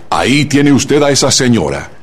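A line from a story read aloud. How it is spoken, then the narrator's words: Dry, imperious stranger. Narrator (Spanish): díjole el desconocido con tono seco e imperiosa voz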